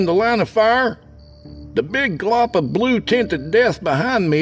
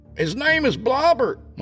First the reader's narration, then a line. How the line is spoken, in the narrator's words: I called out to the cops